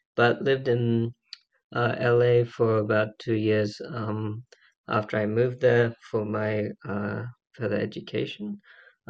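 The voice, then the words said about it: Australian accent. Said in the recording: “born and raised in Australia, as you can probably tell by my accent.”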